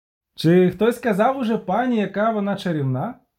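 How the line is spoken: Cheerful calling out. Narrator (Ukrainian): Гукав весело

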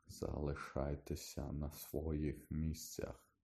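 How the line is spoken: Hoarse command. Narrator (Ukrainian): хрипко звелів він

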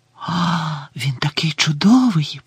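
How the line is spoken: Whisper. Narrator (Ukrainian): прошепотіла Лаванда

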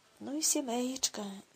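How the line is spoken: Sighing. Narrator (Ukrainian): зітхнула Гретхен

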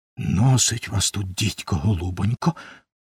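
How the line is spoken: Whisper. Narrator (Ukrainian): пошепки мовив

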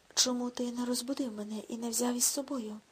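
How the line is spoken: Hoarse question. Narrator (Ukrainian): хрипким голосом спитав Рудольф

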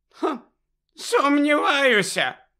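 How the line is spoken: Tiny professor shouting. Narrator (Ukrainian): крикнула крихітна професорка Марчбенкс

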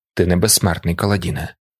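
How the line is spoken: Quiet remark. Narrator (Ukrainian): тихо зауважив Тефт

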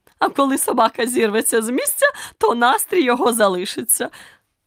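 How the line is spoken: Triumphant exclamation. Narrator (Ukrainian): переможно вигукнула королева

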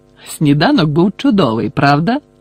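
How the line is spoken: Exclamation. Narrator (Ukrainian): вигукнув Гаррі

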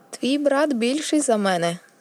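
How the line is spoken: Laughing. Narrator (Ukrainian): засміявся Тіріон

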